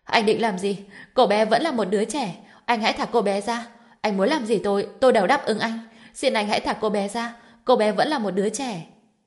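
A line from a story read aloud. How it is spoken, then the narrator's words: Shouting. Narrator (Vietnamese): Sở An An hét lên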